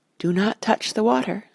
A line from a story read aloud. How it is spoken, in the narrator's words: said the Lady Galadriel softly